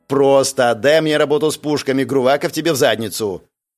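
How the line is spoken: Angry declaration. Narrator (Russian): Зло заявила Зарина

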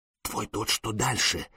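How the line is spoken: Whisper in ear. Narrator (Russian): шепнул Сергей на ухо Машегу

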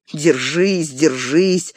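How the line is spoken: Mumbling. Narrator (Russian): забормотал он

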